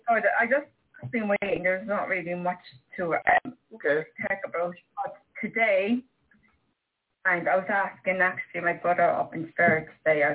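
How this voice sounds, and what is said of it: Irish accent. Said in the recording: “She's speaking from the land of Ayr. ... that's the Irish accent.”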